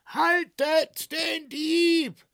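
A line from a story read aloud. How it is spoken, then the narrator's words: Circus director shouting. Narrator (German): schrie der Zirkusdirektor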